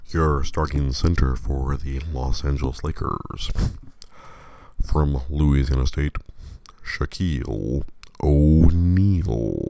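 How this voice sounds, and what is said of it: Unusually deep, cold-affected voice. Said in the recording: “I sound different, that's because I'm coming off of a head cold. And it's dropping my voice an octave ... I have the full Lawrence Tanner bass”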